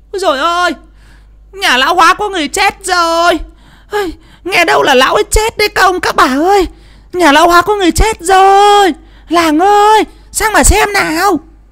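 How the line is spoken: Shrill woman's shriek. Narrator (Vietnamese): có tiếng người đàn bà rít lên the thé

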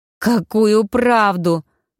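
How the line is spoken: Muffled howl. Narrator (Russian): глухо взвыла Таня

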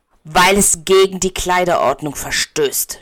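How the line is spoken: Man snapping. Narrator (German): schnauzt er

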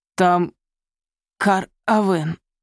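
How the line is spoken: Hoarse rasp. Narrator (Russian): прохрипел

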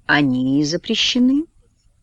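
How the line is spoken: Soft Oxford English. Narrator (Russian): мягко говорит индус на своем оксфордском английском

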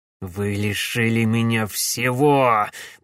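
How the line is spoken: Hissing while walking. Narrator (Russian): прошипел на ходу барон Клайд

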